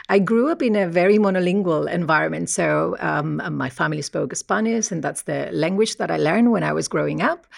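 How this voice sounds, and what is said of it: Spanish accent. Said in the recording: “I'm originally from Spain, as you might be able to tell by my accent.”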